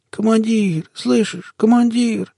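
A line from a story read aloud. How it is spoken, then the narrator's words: Wheezing. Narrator (Russian): просипел я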